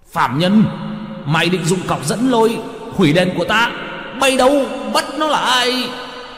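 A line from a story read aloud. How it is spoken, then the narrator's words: Hiss. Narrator (Vietnamese): Quan nọ rít lên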